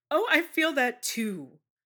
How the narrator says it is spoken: says cheerfully

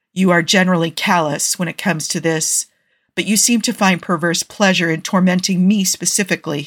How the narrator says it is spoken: he says

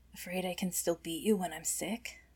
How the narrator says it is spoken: Her voice is raspier than she would like

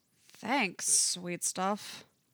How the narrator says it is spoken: Thorn says sarcastically

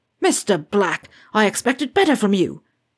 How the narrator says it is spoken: Slughorn yelled some more

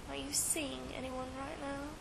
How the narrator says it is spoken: he asked in a low voice

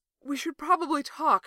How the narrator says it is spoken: Fraser gasps, after long minutes of kissing

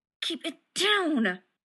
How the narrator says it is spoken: John hissed

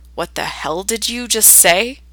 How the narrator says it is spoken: growls, the relaxed weakness of orgasm replaced by a dark red rage

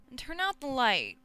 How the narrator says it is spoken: Dean whines

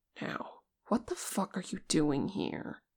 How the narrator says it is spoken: Vegas demanded, his voice low

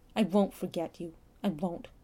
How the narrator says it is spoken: He shook his head fiercely, saying

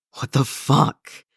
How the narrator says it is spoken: croaks breathlessly

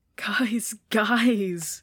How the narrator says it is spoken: says through her own laughter, though it's lighter than theirs

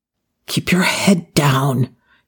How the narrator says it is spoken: he whispered to Daniel

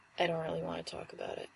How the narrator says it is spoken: he said

